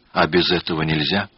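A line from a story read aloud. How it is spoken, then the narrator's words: Fearful, dejected question. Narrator (Russian): Она боялась тех тайн, которые связывают мужчину и женщину в супружестве, и упавшим голосом спрашивала у него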